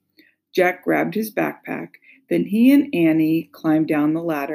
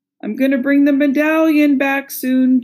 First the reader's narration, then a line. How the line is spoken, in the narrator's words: Jack said loudly